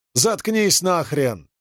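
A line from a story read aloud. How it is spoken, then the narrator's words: Shouted angrily. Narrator (Russian): заорал он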